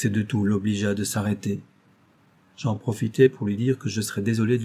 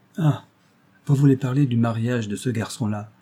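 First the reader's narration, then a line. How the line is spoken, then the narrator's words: Interrupting exclamation. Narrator (French): s'écria-t-il en m'interrompant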